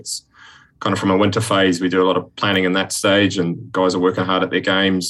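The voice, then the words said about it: Strong accent, hint of Northern Irish. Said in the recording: “Haven't lost the accent at all, though. ... a little bit of Northern Ireland ... it's still quite strong”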